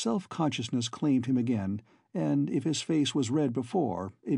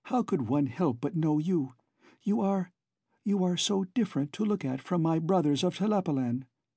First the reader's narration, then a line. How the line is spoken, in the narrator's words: she cried softly